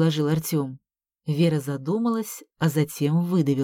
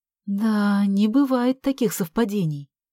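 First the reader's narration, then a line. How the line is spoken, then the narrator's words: Sigh. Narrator (Russian): вздохнула Вера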